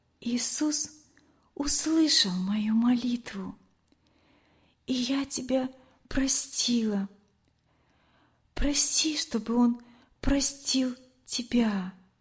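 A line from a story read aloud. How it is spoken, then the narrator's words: Soft whisper. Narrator (Russian): Лена тихо прошептала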